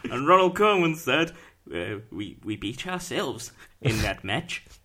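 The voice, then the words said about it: Put-on accent imitating a football manager. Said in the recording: “You should have done the accent. Why didn't you do the accent? ... there you go. There it is.”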